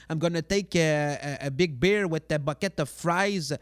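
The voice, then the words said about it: Québécois-accented English. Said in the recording (French): “De notre accent, oui. When you speak English”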